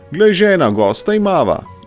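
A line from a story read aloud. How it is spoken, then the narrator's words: Joyful husband calling. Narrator (Slovenian): je zaklical mož s praga ves vesel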